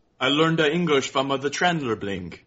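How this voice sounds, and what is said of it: Generic foreign accent. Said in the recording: “Was that a French accent? ... That was world accent. ... generic foreign.”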